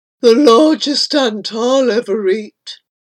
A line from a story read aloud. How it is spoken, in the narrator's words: murmuring as it chewed the feet